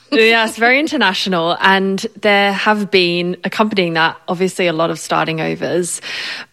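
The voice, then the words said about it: Hybrid Australian-British accent. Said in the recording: “I am Australian and British, hence the hybrid accent”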